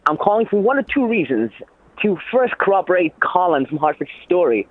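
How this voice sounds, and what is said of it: Weird, hard-to-understand accent. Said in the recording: “This guy's got a weird accent. ... I have no idea what he's saying, barely.”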